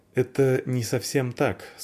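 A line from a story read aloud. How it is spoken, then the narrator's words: Plain. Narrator (Russian): сказал Вар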